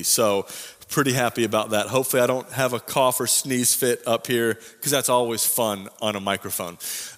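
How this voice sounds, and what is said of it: Voice a little off, sick. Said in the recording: “as you can tell, my voice is a little off today”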